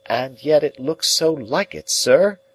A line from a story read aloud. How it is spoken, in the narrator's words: I pleaded with a downcast heart